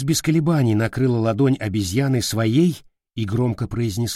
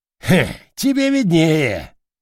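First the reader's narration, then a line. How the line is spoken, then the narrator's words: Laughing. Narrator (Russian): рассмеялся орангутан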